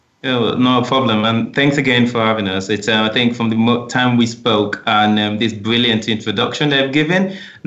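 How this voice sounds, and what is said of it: Nigerian English accent. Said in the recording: “your accent doesn't completely sound like you're from the UK originally ... I know you're from Nigeria”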